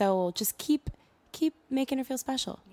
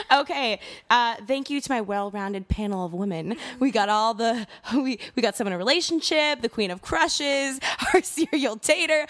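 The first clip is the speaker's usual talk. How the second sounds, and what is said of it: Radio presenter voice. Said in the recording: “I'm going to my radio voice.”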